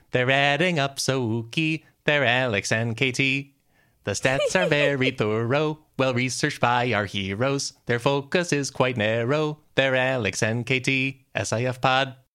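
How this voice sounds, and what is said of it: Spooky sung voice. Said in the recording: “spooky voice”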